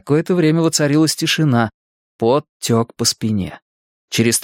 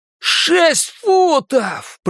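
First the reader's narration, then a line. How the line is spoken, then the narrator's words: Roaring. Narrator (Russian): проревел Генри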